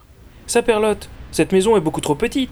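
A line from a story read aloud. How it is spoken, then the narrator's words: Exclaimed. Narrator (French): s'exclama José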